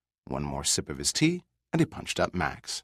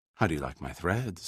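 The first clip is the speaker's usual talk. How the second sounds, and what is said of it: Syrupy, sweet voice. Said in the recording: “in a syrupy voice”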